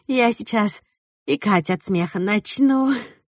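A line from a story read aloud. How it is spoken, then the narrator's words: Moaning. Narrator (Russian): стонала Амелия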